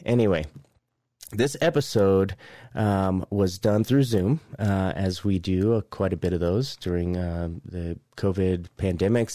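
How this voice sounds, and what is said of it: Raspy voice. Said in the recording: “the sound of my raspy voice”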